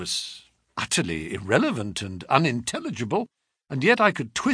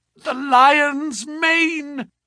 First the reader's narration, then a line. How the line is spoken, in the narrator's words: They were slurred and indistinct, but to my ear the last of them, which burst in a shriek from his lips, were